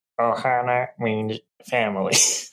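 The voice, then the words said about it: Poor cartoon alien character voice. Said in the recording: “do a Stitch impersonation ... That was really bad.”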